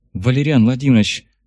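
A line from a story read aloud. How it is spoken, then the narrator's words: Sighing. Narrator (Russian): вздохнула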